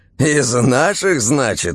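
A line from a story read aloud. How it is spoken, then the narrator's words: Laughing. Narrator (Russian): Серый засмеялся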